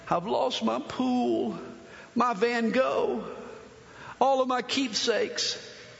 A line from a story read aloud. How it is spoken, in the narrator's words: he's sobbing